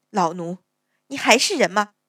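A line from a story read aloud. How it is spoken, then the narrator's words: Resentful, through gritted teeth. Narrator (Chinese): 勾妈妈 心里却满是不服，咬牙道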